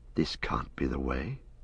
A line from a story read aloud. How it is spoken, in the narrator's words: Frodo whispered